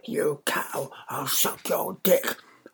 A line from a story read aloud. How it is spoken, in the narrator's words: hissed at her